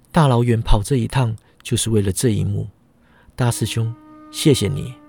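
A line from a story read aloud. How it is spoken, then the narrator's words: Soft, gentle. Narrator (Chinese): 轻声道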